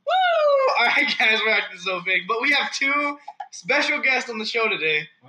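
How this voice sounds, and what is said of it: Loud excited yelling. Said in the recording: “Why are you yelling? ... my ears are hurting.”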